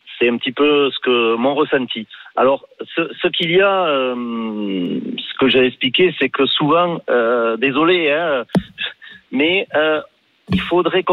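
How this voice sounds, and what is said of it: Toulouse southern French accent. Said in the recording (French): “on a de l'accent là en vous entendant ... Moi, je suis toulousain. Je suis fier de mon accent”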